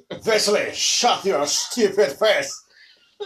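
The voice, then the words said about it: Aggressive mock French accent. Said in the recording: “He is aggressively French talking down to Wesley.”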